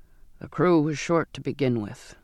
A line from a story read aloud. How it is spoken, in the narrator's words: he said